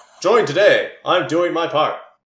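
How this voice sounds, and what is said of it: Fairly convincing put-on accent. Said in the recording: “It's not a bad accent.”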